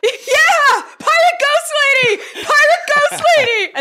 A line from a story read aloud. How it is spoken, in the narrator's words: they shout out